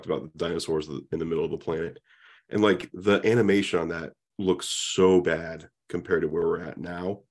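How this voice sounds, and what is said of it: Slightly hoarse voice. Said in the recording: “My throat's a little hoarse”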